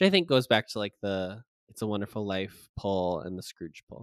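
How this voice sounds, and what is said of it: Usual voice. Nothing is said of it.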